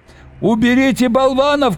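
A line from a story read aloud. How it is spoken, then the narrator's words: Shouting. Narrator (Russian): кричал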